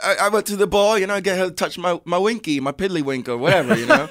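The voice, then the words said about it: Put-on British-sounding accent. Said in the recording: “It's fun to do accent ... that's British. That's ... a little British.”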